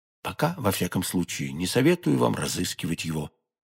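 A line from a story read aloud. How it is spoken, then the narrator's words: Plain. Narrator (Russian): сказал де Тревиль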